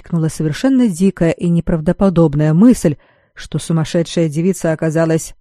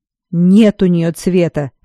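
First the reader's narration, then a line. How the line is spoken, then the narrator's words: Snapping retort. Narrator (Russian): огрызнулся Бреннан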